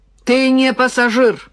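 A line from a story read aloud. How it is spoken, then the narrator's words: Woman barking. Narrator (Russian): рявкнула женщина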